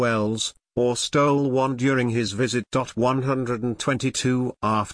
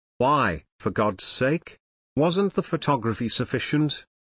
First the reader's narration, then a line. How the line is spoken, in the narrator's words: replied Hunt